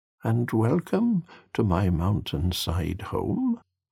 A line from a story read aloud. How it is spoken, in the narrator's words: said warmly